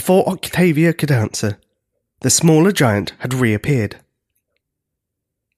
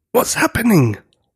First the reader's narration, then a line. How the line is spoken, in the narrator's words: whispered Julius